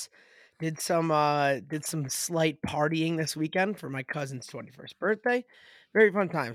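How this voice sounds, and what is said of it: Raspy voice. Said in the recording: “I got another raspy voice”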